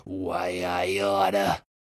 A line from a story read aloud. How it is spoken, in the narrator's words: he mutters